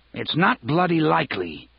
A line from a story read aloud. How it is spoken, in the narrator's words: he said harshly